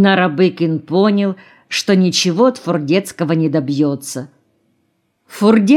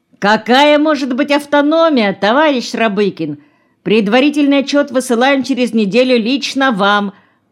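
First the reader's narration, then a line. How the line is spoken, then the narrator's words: Shouted. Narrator (Russian): прокричал Фурдецкий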